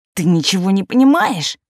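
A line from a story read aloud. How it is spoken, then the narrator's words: Hissing. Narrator (Russian): прошипела она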